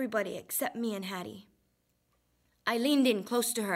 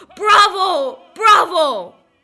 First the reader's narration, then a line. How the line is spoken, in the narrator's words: everybody in the concert hall stood up and shouted